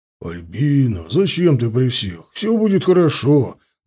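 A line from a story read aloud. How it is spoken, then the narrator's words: Deep male voice. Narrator (Russian): басил в ответ мужской голос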